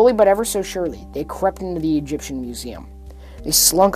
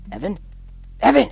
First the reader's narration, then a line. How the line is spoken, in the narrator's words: Oliver hissed